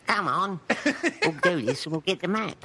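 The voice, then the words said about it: Imitates film characters' voices. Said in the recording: “do a time bandits impression”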